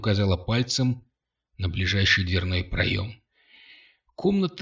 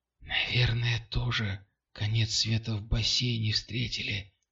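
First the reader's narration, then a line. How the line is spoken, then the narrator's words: Whisper. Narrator (Russian): прошептала Катя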